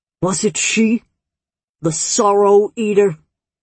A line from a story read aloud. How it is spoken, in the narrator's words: Glurk's voice had turned into a dangerous rumble